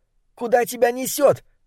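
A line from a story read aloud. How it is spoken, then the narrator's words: Shouted after. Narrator (Russian): выкрикнул ему вслед Дебона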